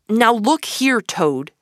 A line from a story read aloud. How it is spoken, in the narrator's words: said Rat sharply